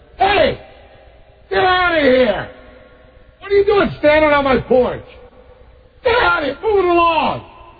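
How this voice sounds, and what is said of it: Yelling loudly. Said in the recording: “I'm yelling this through the door.”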